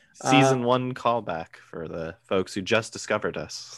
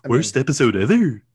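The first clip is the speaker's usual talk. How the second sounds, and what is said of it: Imitates a cartoon character's voice. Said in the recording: “like comic book guy from The Simpsons ... It's like one of my better impersonations.”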